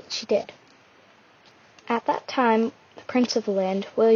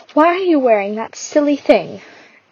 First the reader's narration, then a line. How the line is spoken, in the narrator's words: her stepmother laughed